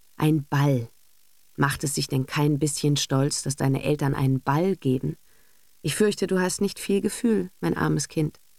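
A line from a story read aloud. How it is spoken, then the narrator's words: Closing with a sigh. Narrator (German): schloss sie mit einem Seufzer schon im Hinausgehen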